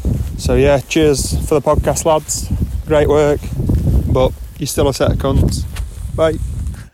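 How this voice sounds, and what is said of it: North Yorkshire English accent. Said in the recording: “my dulcet North Yorkshire UK tones ... such a great accent”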